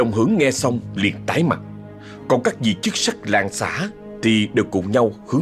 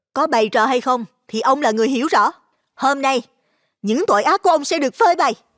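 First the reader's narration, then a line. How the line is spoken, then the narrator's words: Calm, smiling reply. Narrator (Vietnamese): Xuân Yến mỉm cười bình thản trả lời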